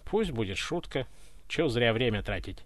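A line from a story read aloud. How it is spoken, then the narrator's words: Tsar's dry reply. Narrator (Russian): сухо ответил царь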